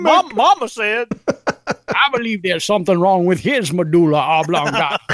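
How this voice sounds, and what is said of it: Waterboy impression, Southern accent. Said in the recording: “Southern corn fed. He had a different accent. ... Sound like the water him.”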